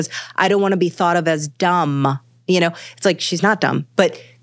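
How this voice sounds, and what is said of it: Usual voice. Nothing is said of it.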